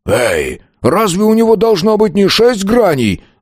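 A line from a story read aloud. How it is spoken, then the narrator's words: Loud indignant bandit. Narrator (Russian): Громко стал возмущаться бандит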